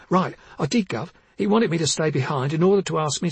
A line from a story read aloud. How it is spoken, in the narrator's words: Barbara said quickly